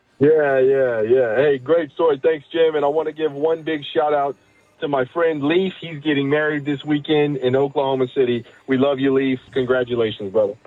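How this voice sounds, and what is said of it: Speaks with a noticeable accent. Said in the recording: “That guy had a great accent... Great accent.”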